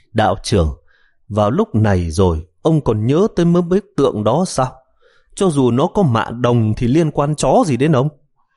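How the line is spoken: Sighing speech. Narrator (Vietnamese): Triệu Ngọc thở dài, nói

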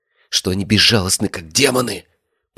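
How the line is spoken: Whispered. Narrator (Russian): прошептал Вексель

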